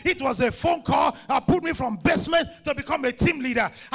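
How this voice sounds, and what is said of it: Thick African accent. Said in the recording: “you don't have English accent. Your African accent is too thick.”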